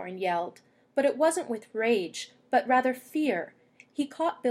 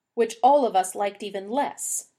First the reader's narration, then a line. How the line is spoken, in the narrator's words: Dwalin snapped